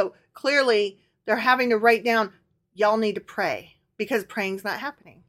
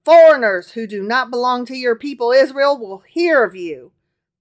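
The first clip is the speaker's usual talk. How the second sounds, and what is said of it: Put-on Southern US accent. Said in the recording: “continued in his southern accent”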